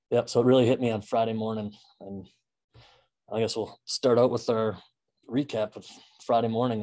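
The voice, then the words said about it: Slightly rough, hoarse voice. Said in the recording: “my voice is still a little rough.”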